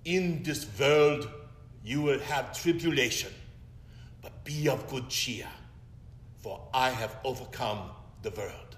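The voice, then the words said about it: Imitated Hungarian accent. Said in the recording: “our Hungarian Hebrew Old Testament professor ... in the accent that I always will remember”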